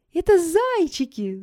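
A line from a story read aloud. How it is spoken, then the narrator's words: Delighted shout. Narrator (Russian): закричала Соня, не вытерпев, от восторга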